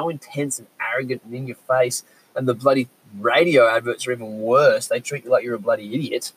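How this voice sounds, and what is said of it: Usual voice. Nothing is said of it.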